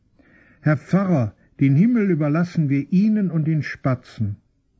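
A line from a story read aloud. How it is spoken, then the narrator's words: Shrieking woman. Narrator (German): kreischend schreit ein Weib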